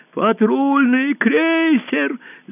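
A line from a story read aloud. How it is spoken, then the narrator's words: Panicked yell. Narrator (Russian): завопил узурпатор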